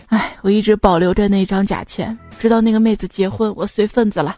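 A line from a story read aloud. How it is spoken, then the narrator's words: Sighing. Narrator (Chinese): 那个师兄叹了一口气说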